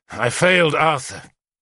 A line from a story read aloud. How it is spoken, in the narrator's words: said bitterly